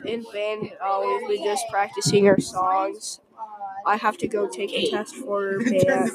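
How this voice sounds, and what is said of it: Voice sounds off, unwell. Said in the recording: “I've been getting really sick ... That's why I sound weird today”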